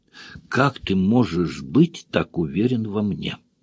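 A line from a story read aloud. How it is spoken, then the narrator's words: Quiet question. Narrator (Russian): тихо спросила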